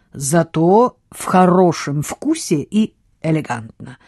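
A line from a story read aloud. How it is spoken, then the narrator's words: Plain. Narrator (Russian): ответил Хьюго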